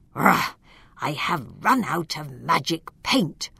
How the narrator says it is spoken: suddenly Stag grumbled

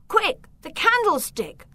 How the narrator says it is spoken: Victor shouted

